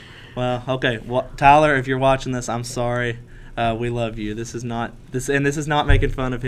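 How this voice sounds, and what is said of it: Usual voice. Nothing is said of it.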